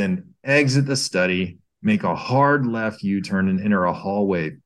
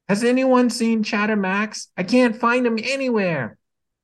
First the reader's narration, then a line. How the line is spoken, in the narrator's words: Bluey yelling from another room